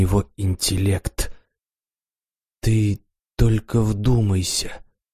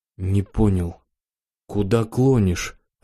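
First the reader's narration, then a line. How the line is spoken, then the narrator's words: Confused question. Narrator (Russian): растерянно спросил я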